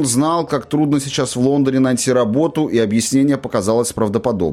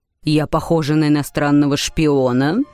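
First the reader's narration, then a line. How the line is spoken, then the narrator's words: Rather menacing question. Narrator (Russian): довольно грозно спросила миссис Беллок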